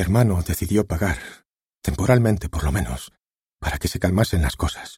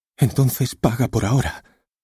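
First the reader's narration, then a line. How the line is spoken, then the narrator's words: Pleading. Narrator (Spanish): le suplicó su hermana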